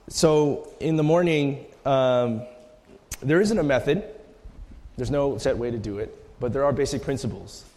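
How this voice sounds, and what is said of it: Strained, fading voice. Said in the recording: “my voice is going a little bit.”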